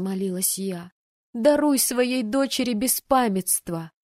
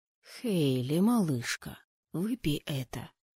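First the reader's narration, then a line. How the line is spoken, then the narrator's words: Whisper heard half-asleep. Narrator (Russian): услышала я сквозь сон чей-то шепот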